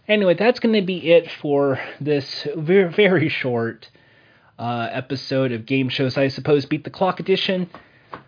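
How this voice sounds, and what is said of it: Strained, fading voice. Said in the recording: “as you can tell from my voice, it's running out. I'm going to need some water.”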